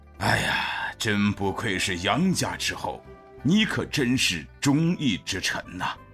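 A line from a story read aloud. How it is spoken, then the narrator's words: Admiring. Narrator (Chinese): 赞叹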